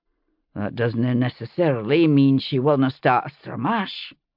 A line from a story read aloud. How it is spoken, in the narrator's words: Ian muttered in my ear